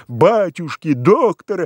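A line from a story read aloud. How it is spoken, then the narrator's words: Deep guttural howl. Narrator (Russian): Демьян Кузьмич даже не вскрикнул, а как-то взвыл утробно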